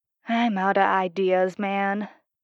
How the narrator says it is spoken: Steve sighed

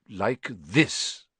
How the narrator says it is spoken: he said irritably

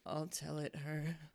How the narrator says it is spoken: said the Mock Turtle in a deep, hollow tone

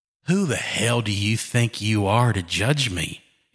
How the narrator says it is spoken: He snarled

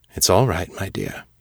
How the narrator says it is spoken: he said, his voice low and tender

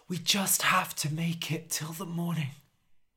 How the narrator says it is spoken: whispered Harold

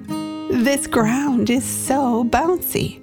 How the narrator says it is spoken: Brian laughed and said

